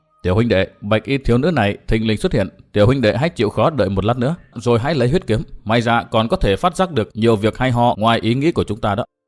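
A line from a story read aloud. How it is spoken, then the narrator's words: Soft. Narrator (Vietnamese): người áo xanh bịt mặt khẽ nói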